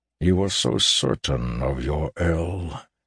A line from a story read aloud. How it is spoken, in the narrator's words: he said softly